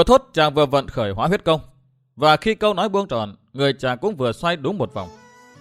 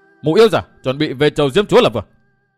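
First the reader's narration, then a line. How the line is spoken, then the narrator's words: Spirited, raised voice. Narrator (Vietnamese): phấn khởi tinh thần, cất cao giọng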